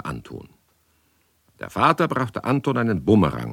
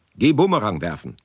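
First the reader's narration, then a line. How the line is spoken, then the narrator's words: Plain. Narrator (German): sagte der Vater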